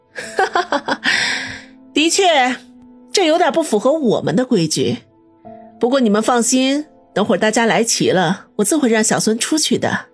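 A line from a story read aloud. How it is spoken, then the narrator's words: Laughing. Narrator (Chinese): 张彤笑道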